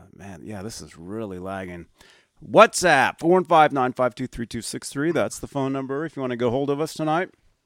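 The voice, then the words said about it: Strained, unwell-sounding voice. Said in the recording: “excuse my voice. I've been under the weather, and I'm really, really trying to talk for you guys.”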